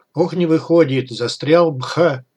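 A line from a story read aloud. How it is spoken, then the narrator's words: Laughing. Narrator (Russian): Смеясь, закос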